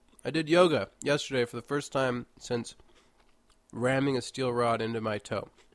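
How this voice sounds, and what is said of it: Slightly congested voice. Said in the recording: “I'm still dealing with this congestion. I don't know if you can hear it in my voice, but I'm a little bit congested.”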